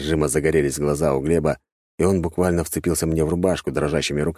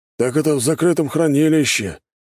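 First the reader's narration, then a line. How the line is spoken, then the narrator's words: Dreamy sigh. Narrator (Russian): мечтательно вздохнул Глеб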